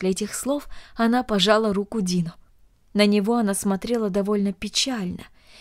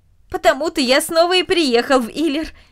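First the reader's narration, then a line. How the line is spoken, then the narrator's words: Cheerful reply. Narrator (Russian): весело ответил Дино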